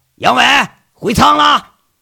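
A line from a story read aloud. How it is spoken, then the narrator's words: Harsh, cracked shout. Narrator (Chinese): 老钱那个破锣嗓子喊了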